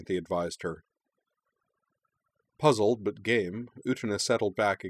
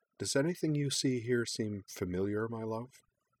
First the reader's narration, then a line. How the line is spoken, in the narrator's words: Anthy prompted quietly